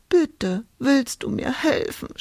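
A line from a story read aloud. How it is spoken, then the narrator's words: Sobbing. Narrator (German): schluchzte Hulda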